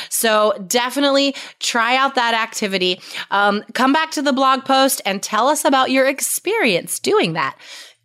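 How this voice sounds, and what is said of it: Slightly hoarse voice. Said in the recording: “I did kind of lose my voice over the weekend, so I'm a little hoarse”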